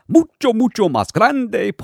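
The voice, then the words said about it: Imitates another person's voice. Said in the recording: “in my best Ed voice”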